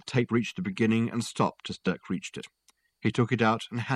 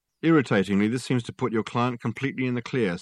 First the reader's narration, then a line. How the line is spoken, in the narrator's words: said the sergeant